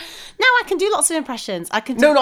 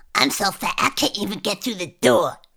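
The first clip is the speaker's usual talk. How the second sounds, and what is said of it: Cartoon character voice impression. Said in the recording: “I can do Cartman ... like a 1990s cartoon character”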